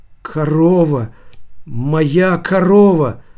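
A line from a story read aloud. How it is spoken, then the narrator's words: Timid. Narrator (Russian): робко проговорил Костырьков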